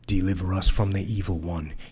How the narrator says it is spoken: he muttered

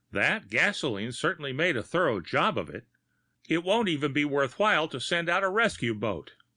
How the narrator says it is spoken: exclaimed

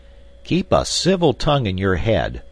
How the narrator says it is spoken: cried the young man, his face paling in anger at the insulting tone of the sailor

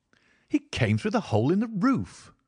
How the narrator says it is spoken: I cried

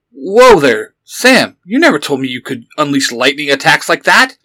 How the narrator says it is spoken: Yellow Ranger exclaimed, playfully

